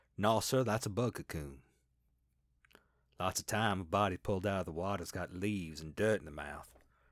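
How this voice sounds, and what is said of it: Put-on West Virginia regional accent. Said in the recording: “I have no idea if my accent is regionally appropriate. ... What was it, Elk River, West Virginia?”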